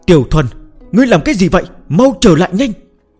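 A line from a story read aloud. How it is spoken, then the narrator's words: Trembling with fear. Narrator (Vietnamese): Hầu Tiểu Muội ... run rẩy vì sợ hãi và lo lắng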